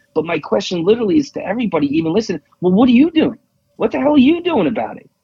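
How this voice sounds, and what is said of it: New York accent. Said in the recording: “my accent already gave it away. I'm from New York”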